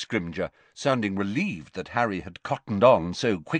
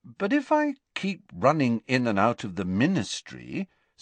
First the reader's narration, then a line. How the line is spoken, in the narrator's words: said Harry, still endeavouring to keep his voice friendly